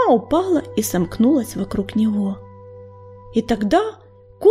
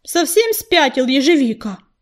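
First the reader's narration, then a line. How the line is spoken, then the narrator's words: Herald barking. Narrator (Russian): рявкнул глашатай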